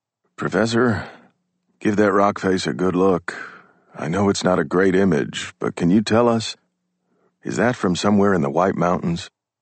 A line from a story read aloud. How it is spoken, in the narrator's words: In a slightly strained voice, Keating says